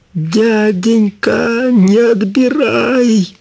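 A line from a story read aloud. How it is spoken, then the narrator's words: Shouting. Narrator (Russian): закричала она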